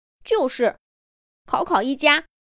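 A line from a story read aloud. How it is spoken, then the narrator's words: Quiet voice. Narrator (Chinese): 书架小 C 也小声说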